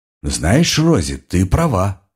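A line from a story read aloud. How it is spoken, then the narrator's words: Slow, thoughtful speech. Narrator (Russian): неторопливо, я бы сказал задумчиво, произнес Гарольд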